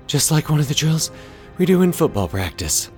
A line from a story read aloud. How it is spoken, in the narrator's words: Zach panted